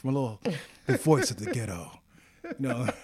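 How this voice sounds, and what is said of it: Mock NPR radio voice. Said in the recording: “I have to work on my NPR voice. I could pull it off.”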